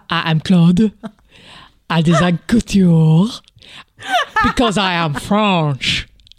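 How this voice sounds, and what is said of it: Bad put-on French accent. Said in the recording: “now do it with a French accent. Is your French accent better than Claude's? ... It's rubbish. ... the skill involved in being that French”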